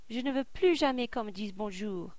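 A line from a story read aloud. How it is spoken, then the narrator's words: Exclaiming. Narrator (French): s'écrie-t-il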